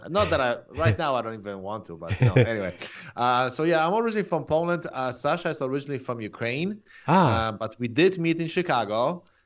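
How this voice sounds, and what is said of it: Strong Polish accent. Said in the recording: “I'm originally from Poland... that's why I still have the strong accent... I couldn't really get rid of that accent”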